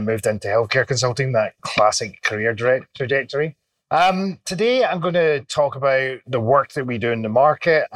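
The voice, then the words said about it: Scottish accent. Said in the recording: “not a local accent. Originally from Scotland”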